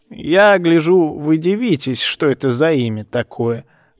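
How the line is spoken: Creaky old man's voice. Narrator (Russian): проскрипел старикан

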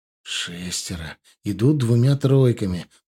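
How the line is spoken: Whisper. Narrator (Russian): прошептал Илор

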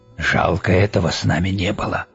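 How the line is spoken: Whispered. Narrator (Russian): шепотом сказал Тедди

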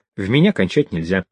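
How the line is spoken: Calm warning. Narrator (Russian): она совершенно спокойно предупредила

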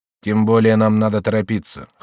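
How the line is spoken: Cold. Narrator (Russian): холодно сказал Шарль Лотарингский

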